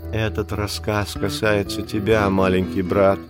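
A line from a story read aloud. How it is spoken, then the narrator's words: Whisper. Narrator (Russian): шепнула Багира Маугли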